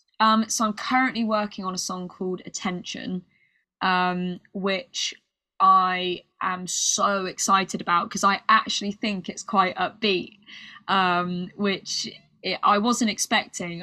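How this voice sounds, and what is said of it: British accent. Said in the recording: “my British accent ... We all love your accent”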